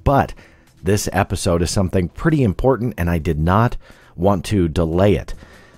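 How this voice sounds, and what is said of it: Voice affected by a cold. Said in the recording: “I always need to get sick ... bring on the flus and colds. So I apologize for my voice just a little bit”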